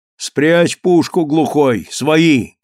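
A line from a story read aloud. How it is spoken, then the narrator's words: Shouted. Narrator (Russian): крикнул шофер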